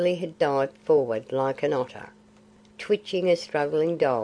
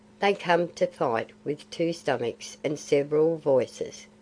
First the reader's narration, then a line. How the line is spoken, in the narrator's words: said Kaa